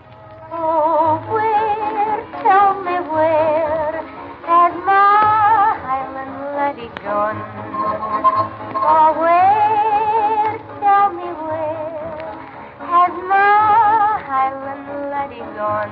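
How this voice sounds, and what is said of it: Scottish-accented singing voice. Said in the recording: “What kind of an accent would you say that was? She's Scotch.”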